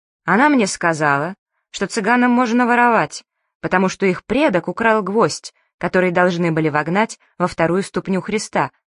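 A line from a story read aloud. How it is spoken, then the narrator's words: Plain. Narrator (Russian): сказала она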